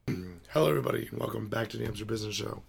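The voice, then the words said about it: Hoarse, strained voice. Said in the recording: “Clearly, I'm losing my voice.”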